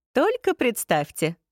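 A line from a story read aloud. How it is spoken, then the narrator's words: Laughing. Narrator (Russian): засмеялся Рин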